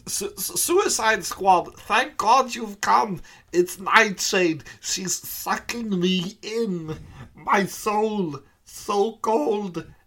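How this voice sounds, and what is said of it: Character voice with Eastern European accent. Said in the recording (Swedish): “med hans dialekt? ... östeuropén, Count Vertigo ... dialekten är satt ... Count Vertigo-imitationerna”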